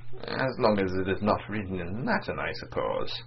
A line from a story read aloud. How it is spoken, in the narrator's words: Vladimir, smiling faintly at the documents he was still scanning one after another, murmured